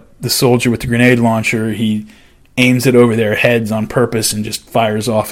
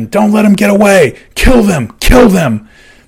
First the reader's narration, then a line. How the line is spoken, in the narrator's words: Callie screamed at his man